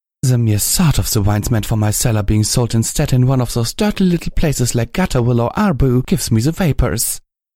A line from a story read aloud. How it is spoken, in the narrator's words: a mare had snorted, exclaiming